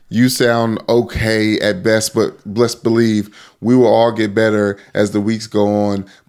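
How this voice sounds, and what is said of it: Hoarse, worn-out voice. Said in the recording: “You got to rest the pipes for a week. ... My voice is shot.”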